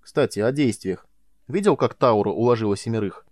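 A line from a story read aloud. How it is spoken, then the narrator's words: Snorting laugh. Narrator (Russian): Майлз фыркнул от смеха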